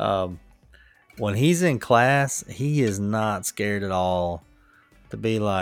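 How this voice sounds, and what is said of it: Usual voice. Nothing is said of it.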